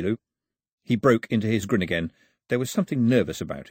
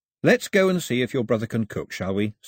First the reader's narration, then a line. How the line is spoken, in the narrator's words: said Mao, keeping his voice level and friendly